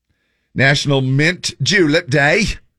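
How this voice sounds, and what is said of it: Put-on British accent. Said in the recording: “I went into a British accent. It just sounded like a British thing.”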